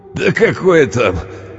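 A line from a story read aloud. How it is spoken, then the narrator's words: Laughing. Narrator (Russian): он рассмеялся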